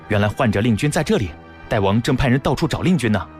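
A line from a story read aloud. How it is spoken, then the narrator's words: Hurried call. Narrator (Chinese): 一名内侍匆匆奔过来叫道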